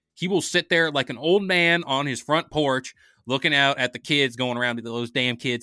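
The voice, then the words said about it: Southern old man accent. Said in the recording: “Why did you get a whole Southern accent when you said that? ... that's a stereotypical old man sitting on his porch”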